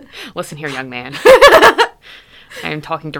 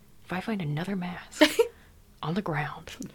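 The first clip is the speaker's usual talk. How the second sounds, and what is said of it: Whispering close into the ear. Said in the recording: “I'm whispering this to you now ... ASMR edition ... Directly in your ear holes”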